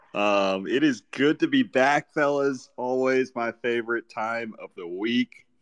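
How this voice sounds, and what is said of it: Voice sounds off, throat-cleared. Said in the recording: “excuse my voice,”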